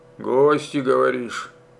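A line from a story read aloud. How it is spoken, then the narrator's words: Slightly hoarse question. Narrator (Russian): хрипловато спросил Стародубцев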